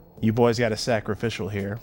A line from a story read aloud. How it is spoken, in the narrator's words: Pax said flatly